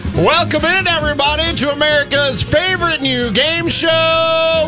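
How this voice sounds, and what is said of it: Game show announcer voice. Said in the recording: “my game show announcer voice”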